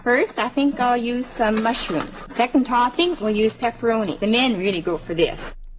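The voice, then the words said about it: Minnesota-like regional accent. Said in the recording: “her accent, she's got to be from Manitoba because she sounds almost like Minnesota ... There's a little bit of Minnesota an accent there”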